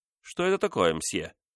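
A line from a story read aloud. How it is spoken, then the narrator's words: Sudden irritated question. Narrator (Russian): внезапно спросил король раздраженно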